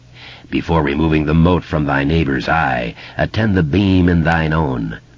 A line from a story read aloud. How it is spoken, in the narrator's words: the clown intoned, its words rumbling and vibrating